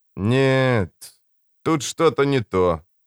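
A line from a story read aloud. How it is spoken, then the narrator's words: Drawl. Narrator (Russian): протянул Богарт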